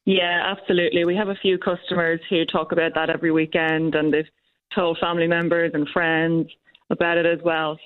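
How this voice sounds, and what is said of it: Irish accent. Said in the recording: “I'm picking up an accent there. Is that Irish? ... It is, yep.”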